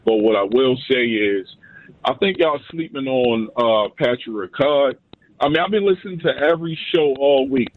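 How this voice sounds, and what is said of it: Baltimore accent. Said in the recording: “you can hear by my accent, I am a Baltimorean through and through”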